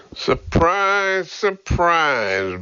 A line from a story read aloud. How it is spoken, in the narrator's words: Burke drawled